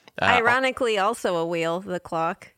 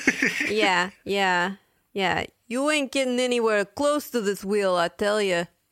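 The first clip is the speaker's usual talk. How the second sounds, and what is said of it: Put-on tough-guy accent. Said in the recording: “Your accent's perfect.”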